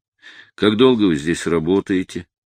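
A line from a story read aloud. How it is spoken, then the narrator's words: Flat question. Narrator (Russian): бесстрастным голосом спросил я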